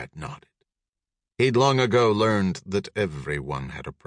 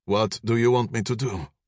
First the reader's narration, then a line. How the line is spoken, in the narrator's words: Conrad asked